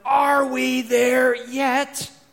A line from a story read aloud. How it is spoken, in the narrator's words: anticipating the final destination, we scream out